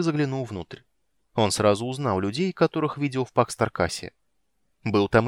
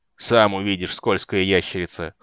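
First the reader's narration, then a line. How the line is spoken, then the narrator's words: Snorting. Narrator (Russian): хмыкнул Тайвар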